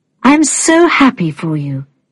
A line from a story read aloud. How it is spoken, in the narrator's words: she said